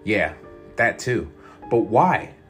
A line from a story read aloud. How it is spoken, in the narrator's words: I said